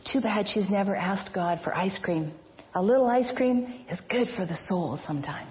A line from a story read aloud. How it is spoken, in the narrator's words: in a theatrical whisper, the gentleman asked